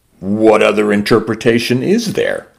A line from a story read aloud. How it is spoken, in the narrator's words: Jay asked